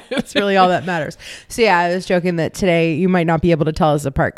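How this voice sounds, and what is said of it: Hoarse, low, mostly lost voice. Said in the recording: “I've just lost my voice. ... This is about as much voice as I've had for a couple of days. ... I'm going to be a low voice bitch.”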